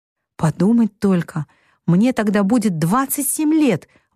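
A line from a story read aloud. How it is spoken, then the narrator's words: Excited exclamation. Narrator (Russian): воскликнула Мэг, которая чувствовала себя очень взрослой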